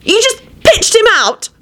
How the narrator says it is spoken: Elizabeth screamed accusingly at Quentin

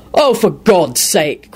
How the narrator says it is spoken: Quentin barked out

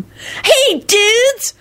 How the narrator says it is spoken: Kenny yelped delightedly

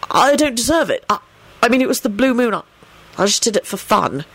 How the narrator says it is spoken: he explained earnestly

